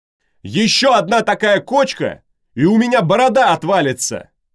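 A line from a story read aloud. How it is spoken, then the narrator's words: Shouting. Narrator (Russian): Опять крикнул Сервий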